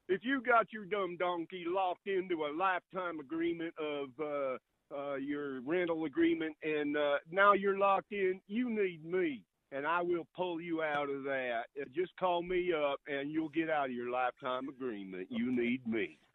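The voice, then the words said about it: Imitates another person's voice. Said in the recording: “my quick impression here, I know I'll fumble it”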